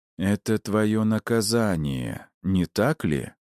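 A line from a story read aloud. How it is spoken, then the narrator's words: Slow speech. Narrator (Russian): медленно произнес я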